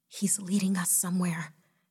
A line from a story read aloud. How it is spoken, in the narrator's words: Jessica whispered excitedly